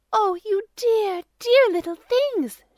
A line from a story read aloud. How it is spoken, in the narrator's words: she cried